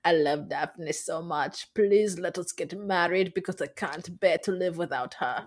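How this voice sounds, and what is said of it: Unidentified put-on accent. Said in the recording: “What accent is that?”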